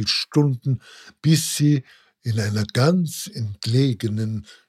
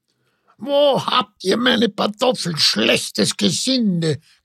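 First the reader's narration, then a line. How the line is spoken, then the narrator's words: Old woman's croak. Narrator (German): krächzte die Alte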